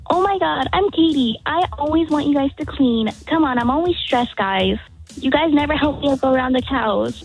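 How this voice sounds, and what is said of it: Imitates her mother's voice. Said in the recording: “that impression of your mom”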